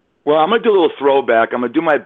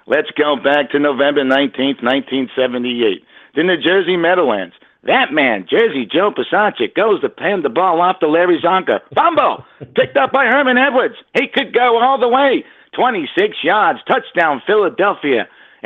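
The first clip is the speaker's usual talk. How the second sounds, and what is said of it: Imitates a sportscaster's voice. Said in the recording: “my best Howard Cosell imitation”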